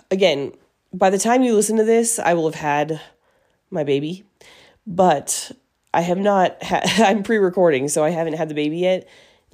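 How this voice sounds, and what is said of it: Breathless, out-of-breath speech. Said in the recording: “I'm getting out of breath ... If I talk too much, I just get out of breath”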